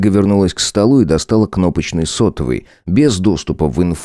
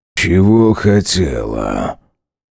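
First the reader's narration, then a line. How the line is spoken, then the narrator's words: Low husky voice over phone. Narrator (Russian): раздался в динамике телефона низкий с хрипотцой голос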